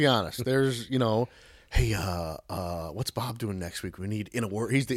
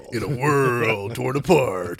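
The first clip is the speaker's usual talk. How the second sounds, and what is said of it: Deep low movie trailer narrator voice. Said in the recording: “deep, low narrator type voices ... vocal radio voice ... He's the in a world guy.”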